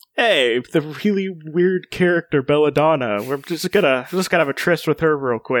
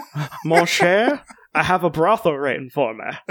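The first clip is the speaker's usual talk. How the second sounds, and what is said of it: Put-on character accent. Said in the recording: “you're killing it on the accent, so please continue.”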